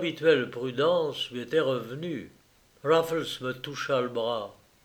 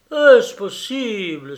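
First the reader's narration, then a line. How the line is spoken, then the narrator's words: Startled exclamation. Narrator (French): s'écria l'Écossais en tressaillant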